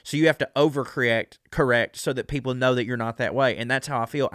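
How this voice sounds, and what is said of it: Southern American accent. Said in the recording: “As a Southerner with this accent”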